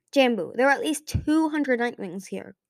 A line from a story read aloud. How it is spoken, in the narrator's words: Glory snapped